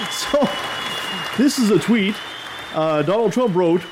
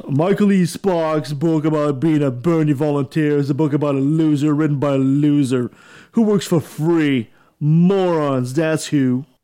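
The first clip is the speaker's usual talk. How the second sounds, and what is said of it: Imitates another person's voice. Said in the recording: “maybe I should do a Donald Trump voice.”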